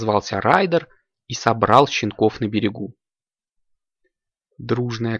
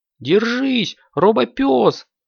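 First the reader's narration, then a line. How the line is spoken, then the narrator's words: Shouted. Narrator (Russian): крикнул Зума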